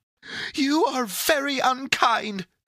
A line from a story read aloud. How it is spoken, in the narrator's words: said Pandora, sobbing anew